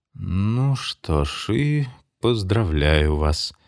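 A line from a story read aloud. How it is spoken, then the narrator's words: Said gloomily. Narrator (Russian): мрачно сказал Ламор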